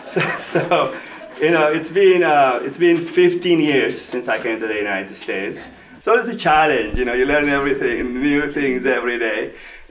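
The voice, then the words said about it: Non-native English accent. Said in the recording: “I have accent. ... He thought my English was natural. Dad, you have accent.”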